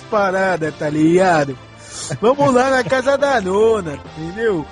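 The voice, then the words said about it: Put-on São Paulo accent. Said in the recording (Portuguese): “sotaque paulista”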